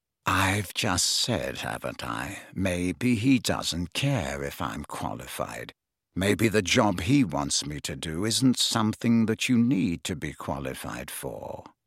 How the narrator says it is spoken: said Malfoy quietly

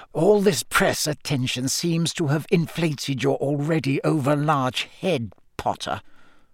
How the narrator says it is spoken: said Snape quietly

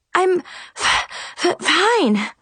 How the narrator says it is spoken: I panted

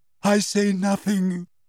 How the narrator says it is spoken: she choked

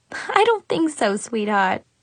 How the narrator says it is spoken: the lady chuckled

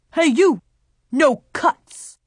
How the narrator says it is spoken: the man snarled

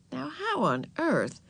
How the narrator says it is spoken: began in a puzzled voice

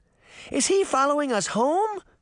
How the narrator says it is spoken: Daphne cried

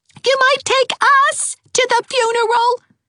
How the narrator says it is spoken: shrieked Gerald, suddenly sticking his head out of an upstairs window

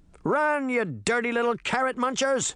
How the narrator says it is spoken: Puck shouted after them

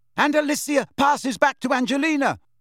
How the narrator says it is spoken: Lee shouted

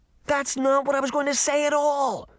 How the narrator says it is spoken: Sabrina shouted

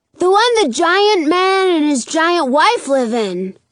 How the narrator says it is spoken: Jonah yells down

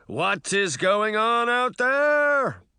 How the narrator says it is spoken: A voice suddenly boomed from behind the door

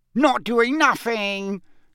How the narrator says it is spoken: cackled

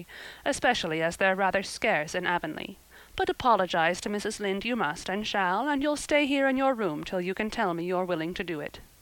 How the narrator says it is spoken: said Marilla dryly

